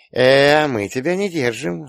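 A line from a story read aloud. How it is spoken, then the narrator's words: Affectionate purr. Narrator (Russian): ласково промурлыкала Рита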